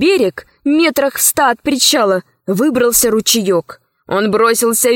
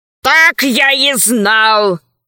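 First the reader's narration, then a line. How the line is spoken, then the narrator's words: Roaring. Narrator (Russian): взревел правый крот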